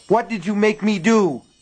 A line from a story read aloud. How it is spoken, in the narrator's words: She screamed